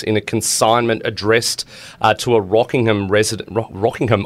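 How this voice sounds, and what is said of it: Put-on British accent. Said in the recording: “I'm putting on like a British accent.”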